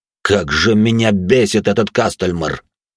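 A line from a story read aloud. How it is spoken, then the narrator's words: Through gritted teeth. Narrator (Russian): процедил управляющий тюрьмой сквозь зубы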